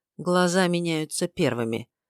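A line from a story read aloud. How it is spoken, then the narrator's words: Quiet. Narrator (Russian): тихо сказал Тома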